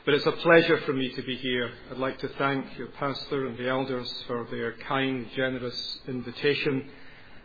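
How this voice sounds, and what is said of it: Scottish Glasgow accent. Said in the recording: “I hope my accent will not be a distraction to you. In case you're wondering, it is Scottish, but it's called Educated Glasgow.”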